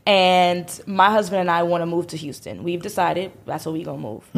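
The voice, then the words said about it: New York accent. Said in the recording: “I'm from New York City. I'm sure you could tell from my accent. It's so charming.”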